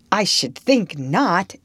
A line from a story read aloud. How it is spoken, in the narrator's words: exclaimed Diana indignantly